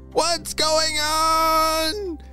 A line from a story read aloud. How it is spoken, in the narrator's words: shouted Simon